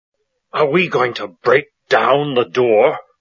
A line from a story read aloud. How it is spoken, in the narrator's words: the first man asked angrily